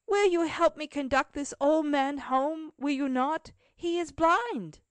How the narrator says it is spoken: cried out Cecil to his companions

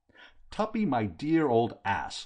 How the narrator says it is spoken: I cried

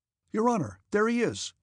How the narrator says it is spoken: cried one of the hussars behind him

